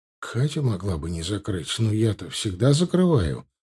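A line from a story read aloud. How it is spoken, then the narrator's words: Muttered. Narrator (Russian): пробормотал он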